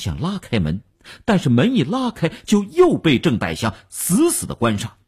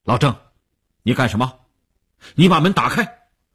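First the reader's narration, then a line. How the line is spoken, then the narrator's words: Stern shouted command. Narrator (Chinese): 吴长天厉声喝令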